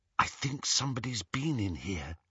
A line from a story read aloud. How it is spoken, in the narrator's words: Hermione whispered